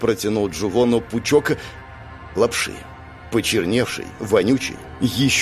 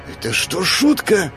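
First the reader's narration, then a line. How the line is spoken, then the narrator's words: Hissed. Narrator (Russian): прошипел Джувон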